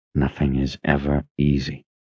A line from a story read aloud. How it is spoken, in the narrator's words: Richard muttered